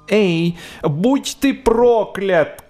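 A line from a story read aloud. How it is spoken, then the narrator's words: Angry shout. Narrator (Russian): кричала она, когда на пути попадался какой-нибудь незадачливый гребец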